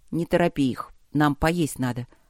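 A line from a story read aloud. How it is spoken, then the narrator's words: Calm. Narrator (Russian): сказал он также спокойно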